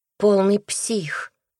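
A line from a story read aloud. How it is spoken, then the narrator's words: Displeased drawl. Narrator (Russian): недовольно протянула Настя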